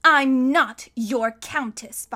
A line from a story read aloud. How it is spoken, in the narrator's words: Violet said testily, a word which here means in an extremely annoyed tone